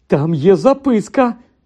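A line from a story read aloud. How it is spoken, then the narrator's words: Sudden exclamation. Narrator (Ukrainian): раптом вигукнув Рон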